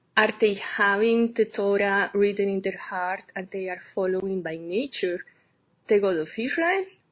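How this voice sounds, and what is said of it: Strong accent, hard to understand. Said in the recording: “I have a hard time with your accent”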